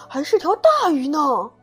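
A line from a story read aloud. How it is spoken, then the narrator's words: Sudden shout, chubby child. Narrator (Chinese): 小胖墩儿突然喊道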